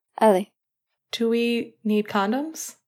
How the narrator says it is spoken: Finn asked hesitantly

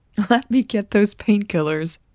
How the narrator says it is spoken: Natalie giggled

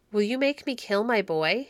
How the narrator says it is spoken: he said

